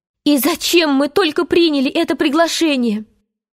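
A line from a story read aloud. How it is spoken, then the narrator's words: Exclamation. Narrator (Russian): она воскликнула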